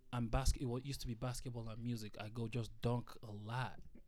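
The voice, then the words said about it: Noticeable non-native accent. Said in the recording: “my accent can get away in the way sometimes”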